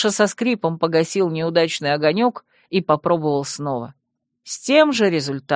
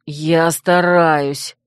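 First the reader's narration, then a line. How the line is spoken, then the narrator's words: Through gritted teeth. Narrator (Russian): процедил Тир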